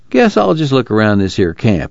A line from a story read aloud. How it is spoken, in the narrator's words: Al said